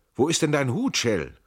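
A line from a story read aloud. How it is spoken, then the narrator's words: Loud call. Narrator (German): rief laut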